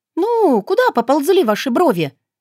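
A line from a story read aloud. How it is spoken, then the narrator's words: Exclamation. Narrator (Russian): воскликнула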